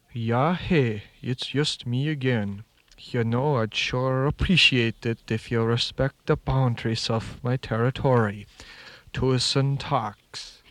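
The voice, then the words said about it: Norwegian-style accent. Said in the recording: “Northland crows speak with a Norwegian accent.”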